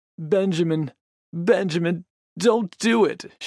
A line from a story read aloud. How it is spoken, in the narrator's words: she sobbed